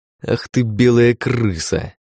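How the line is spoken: Growling. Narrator (Russian): прорычал

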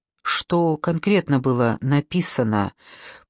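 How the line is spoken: Forced calm question. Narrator (Russian): пытаясь говорить спокойно, спросила Маша

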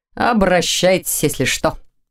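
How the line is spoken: Pleased snort. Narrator (Russian): хмыкнул Дементьев, явно довольный тем, что все же оказался полезен

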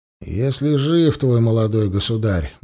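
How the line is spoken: Grumbled. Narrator (Russian): буркнул толмач

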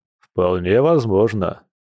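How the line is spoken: Bear's chuckle. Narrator (Russian): хохотнул медведь

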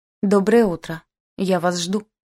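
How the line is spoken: Loud and sharp. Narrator (Russian): прозвучало громко и резко

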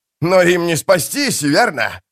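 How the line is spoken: Laughing loudly. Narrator (Russian): расхохотался Пормкваль

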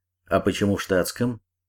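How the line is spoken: Angry question. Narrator (Russian): сердито спросил полковник

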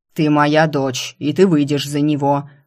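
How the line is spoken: Growling demon. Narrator (Russian): прорычал демон

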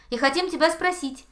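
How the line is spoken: Cheerful. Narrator (Russian): подхватил заяц весело

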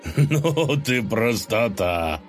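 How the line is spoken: Short laugh. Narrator (Russian): хохотнул Колыван

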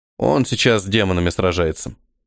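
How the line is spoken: Snorting. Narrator (Russian): хмыкнул Ниэль

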